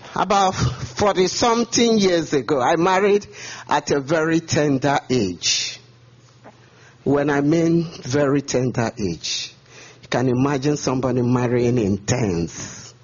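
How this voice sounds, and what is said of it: Heavy Nigerian English accent. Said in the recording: “I hope you understand my English. I'm from Nigeria, and we have a heavy accent.”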